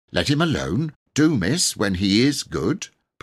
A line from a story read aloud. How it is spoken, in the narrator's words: Martha said crossly